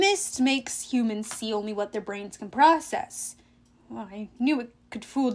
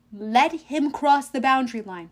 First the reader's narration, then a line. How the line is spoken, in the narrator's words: I asked